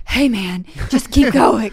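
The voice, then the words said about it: Creepy imitated voice. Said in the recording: “this creepy voice”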